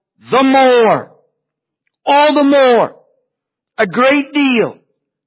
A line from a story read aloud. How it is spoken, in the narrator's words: He cried out